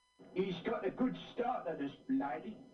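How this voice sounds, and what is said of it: Exaggerated Cockney character voice. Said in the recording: “That's his Cockney accent? ... he sounds ugly ... He sounds like it's like the 1860s, and he's in a horse carriage ... it's so Cockney.”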